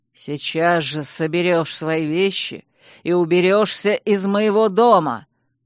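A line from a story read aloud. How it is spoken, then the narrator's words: Growled. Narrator (Russian): прорычал герцог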